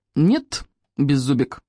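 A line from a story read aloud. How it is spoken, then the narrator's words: Very firm declaration. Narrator (Russian): самым твердым голосом заявил Икинг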